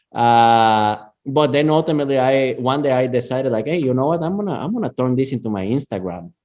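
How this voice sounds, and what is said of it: Latin American accent. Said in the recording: “because I'm from Latin America and I have an accent”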